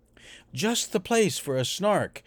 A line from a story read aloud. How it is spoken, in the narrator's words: the bellman cried